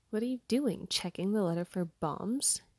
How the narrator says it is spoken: He chuckled at his own joke

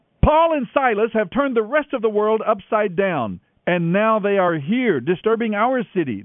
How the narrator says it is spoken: they shouted

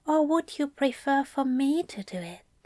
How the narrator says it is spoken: Aziraphale whispered

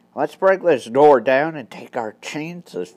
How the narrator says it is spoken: Frank whispered hoarsely

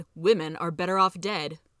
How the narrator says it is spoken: He coldly responded

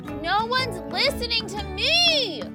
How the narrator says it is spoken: she yelled

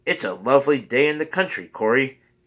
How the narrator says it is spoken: he cried

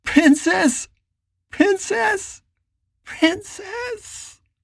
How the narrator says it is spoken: cried out, and then again

